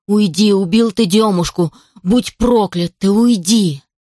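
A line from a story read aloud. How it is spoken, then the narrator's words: Angry menacing shouting. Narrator (Russian): Гневно, грозно кричала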